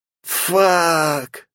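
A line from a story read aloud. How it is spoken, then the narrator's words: Groaning in dismay. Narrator (Russian): застонав, схватился за голову Хаос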